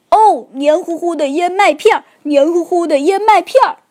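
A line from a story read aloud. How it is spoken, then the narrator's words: Shouting while hopping. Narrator (Chinese): 熊爸爸边蹦边喊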